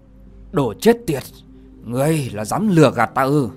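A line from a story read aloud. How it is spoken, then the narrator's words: Shocked angry shout. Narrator (Vietnamese): Chàng thất kinh, tức giận quát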